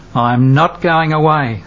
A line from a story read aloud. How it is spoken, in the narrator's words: says the Magdalene